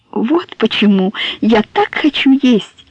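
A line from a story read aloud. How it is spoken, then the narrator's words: Joyful exclamation. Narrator (Russian): радостно воскликнула Соня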